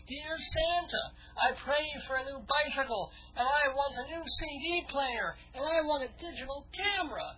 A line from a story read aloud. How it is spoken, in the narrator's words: the younger child started yelling at the top of his lungs